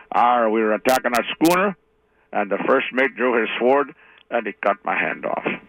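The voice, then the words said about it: Pirate character voice. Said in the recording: “I do not impersonate a pirate, but I'll do my best here.”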